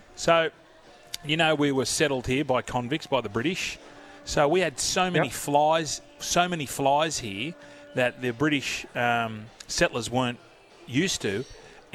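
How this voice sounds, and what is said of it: Australian accent. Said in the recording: “It's our stupid accents ... the Australian accent”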